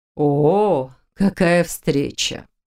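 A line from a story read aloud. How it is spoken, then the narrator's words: Surprised gasp. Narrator (Russian): удивленно выдохнула она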